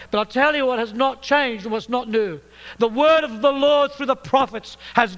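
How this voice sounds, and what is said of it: British accent. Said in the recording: “I'm speaking to you in a British accent”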